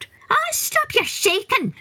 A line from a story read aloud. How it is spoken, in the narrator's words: squealed the leprechaun